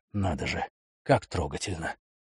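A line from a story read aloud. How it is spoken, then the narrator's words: Sarcastic muttering. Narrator (Russian): пробурчал Дюпри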